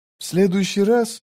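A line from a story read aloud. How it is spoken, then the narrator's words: Whispered. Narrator (Russian): прошептала она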